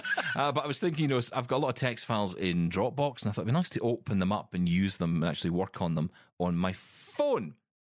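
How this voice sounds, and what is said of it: Noticeable regional accent. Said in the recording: “my accent ... It's glorious.”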